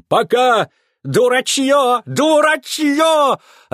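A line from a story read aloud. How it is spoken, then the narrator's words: Yelling. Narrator (Russian): орал Бенджамин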